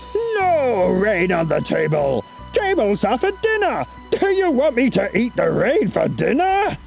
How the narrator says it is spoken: Chen roared

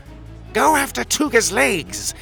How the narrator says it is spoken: he shrieked

